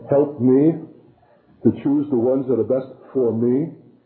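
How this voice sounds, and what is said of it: Heavy emphasis on the word me. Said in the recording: “my accent and emphasis is falling on certain key words. Me, me, me, me, me.”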